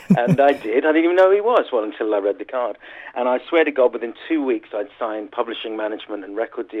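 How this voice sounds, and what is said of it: Usual voice. Nothing is said of it.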